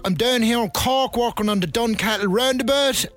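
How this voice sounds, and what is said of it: Irish County Louth accent. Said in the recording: “I'm from the Tand and Dock ... for someone from County Loud ... they're only interested in laughing at my accent”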